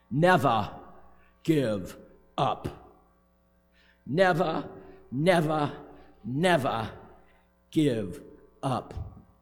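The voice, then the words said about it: British accent Winston Churchill impression. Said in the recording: “Winston Churchill ... with my best British accent”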